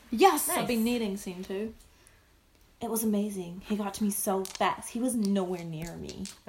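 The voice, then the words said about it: Put-on American accent. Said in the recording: “Is that a really good American accent?”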